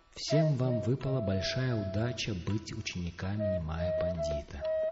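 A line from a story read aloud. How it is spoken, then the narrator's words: Plain. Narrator (Russian): сказал Гангадас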